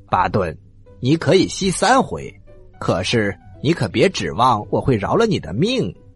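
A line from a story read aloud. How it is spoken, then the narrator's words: King laughing heartily. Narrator (Chinese): 国王大笑着说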